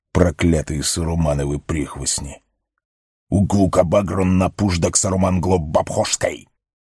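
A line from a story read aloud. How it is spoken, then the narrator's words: Goblin cursing turning to grumbling. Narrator (Russian): Ругань гоблина сменилась бессильным ворчанием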